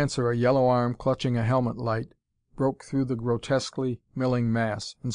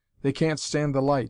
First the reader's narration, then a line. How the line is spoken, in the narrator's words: cried